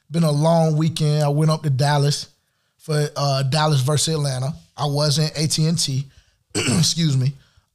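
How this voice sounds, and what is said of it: Worn, slightly shot voice. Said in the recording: “my voice is a little shot right now”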